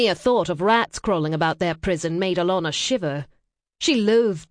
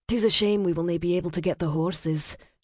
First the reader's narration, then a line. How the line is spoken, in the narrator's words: she murmured